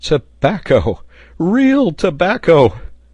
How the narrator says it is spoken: a voice was heard repeating excitedly

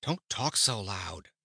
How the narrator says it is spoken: begged Kiki uneasily

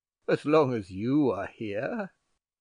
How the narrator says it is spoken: added he, laughing

